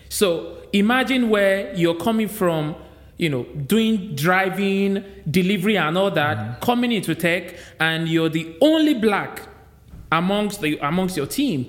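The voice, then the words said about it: Thick Nigerian accent. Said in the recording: “I'm a Nigerian. ... You can hear my accent. ... So thick.”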